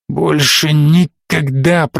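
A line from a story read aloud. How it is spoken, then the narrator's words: Hoarse rasp. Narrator (Russian): прохрипел Эйрел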